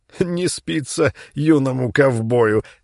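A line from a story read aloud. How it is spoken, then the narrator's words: Loudish, smiling. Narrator (Russian): громковато сказал Володя, перестав смеяться, но еще улыбаясь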